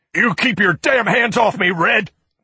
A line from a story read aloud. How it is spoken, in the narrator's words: Carmody shouted, the cord swelling in his neck